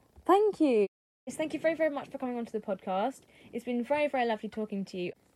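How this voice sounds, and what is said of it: Usual voice. Nothing is said of it.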